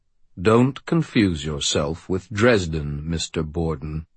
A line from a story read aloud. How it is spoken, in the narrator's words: Marcone said, his voice level and cold